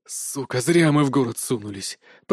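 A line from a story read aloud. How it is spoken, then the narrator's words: Groan. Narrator (Russian): простонал Харитон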